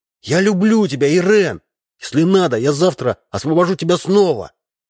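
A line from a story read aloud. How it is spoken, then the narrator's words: Child shouting loudly. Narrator (Russian): Максимка вырывался и кричал на всю площадь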